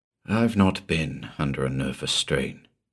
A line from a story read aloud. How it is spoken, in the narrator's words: murmured